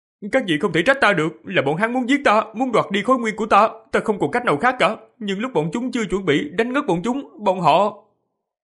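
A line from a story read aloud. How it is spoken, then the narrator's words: Feigned fearful boyish stammer. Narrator (Vietnamese): Diệp Phàm giả bộ sợ hãi, giả dạng thân sắc của thiếu niên 11-12 tuổi, lắp bắp nói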